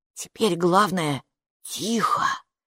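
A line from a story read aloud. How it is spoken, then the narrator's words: Whispered in ear. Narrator (Russian): шепнул халат на ухо Майки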